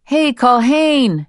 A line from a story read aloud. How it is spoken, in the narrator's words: she yelled, cupping her hands to either side of her mouth